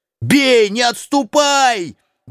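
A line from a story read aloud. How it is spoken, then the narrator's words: Shouted. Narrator (Russian): крикнул Квакин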